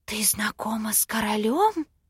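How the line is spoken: Cautious whisper. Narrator (Russian): Осторожно прошептала подруга

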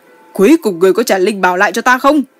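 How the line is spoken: Choked fury through teeth. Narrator (Vietnamese): Mông Kỳ tức giận đến nghẹn lời, nghiến răng nói

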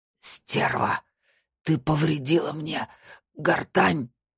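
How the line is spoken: Hateful wheeze. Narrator (Russian): с ненавистью прохрипел Виктор

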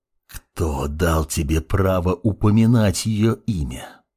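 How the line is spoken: Hissing father. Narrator (Russian): прошипел подскочивший к подмастерью отец

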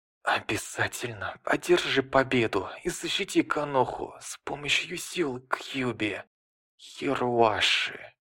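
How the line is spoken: Whispered last words. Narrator (Russian): Минато прошептал последние слова

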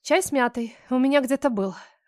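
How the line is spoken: Sighing. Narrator (Russian): вздохнула

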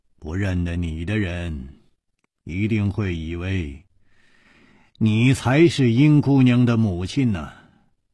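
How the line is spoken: Sighing. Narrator (Chinese): 楚留香叹了一口气说

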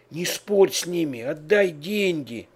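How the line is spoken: Frightened whisper. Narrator (Russian): испуганно шепнула

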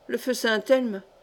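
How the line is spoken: Murmured. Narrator (French): murmura Achille Musée

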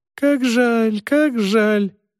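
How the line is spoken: Doctor squeaking. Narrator (Russian): пищал доктор

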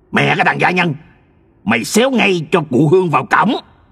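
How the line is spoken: Man's angry shout. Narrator (Vietnamese): gã đàn ông kia vội quơ roi vụt cho anh vài nhát, miệng hắn quát

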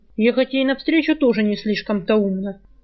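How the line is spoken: Grumbling. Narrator (Russian): проворчал Жар

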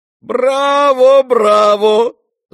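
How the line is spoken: Shouting. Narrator (Russian): закричал Фердыщенко

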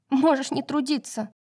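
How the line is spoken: Snapping retort. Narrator (Russian): огрызнулась Юна

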